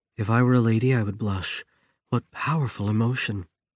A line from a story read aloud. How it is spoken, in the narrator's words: Didi whispered